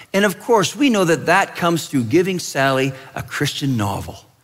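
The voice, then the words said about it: Sarcastic tone. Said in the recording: “That's being sarcastic.”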